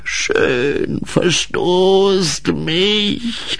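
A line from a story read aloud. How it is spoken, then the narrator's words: Croaked pitifully. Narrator (German): krächzte er erbärmlich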